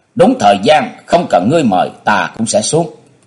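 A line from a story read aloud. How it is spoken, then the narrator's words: Cold. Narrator (Vietnamese): Vũ Văn Bá Không buông giọng lạnh lùng nói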